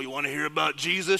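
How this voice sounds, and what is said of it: Gruff ogre character voice. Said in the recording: “good ogre impression”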